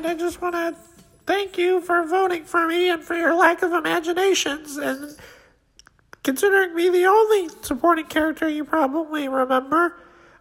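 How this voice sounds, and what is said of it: Cartoon character voice. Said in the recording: “this is Skeeter Valentine ... turns out Skeeter was able to make it”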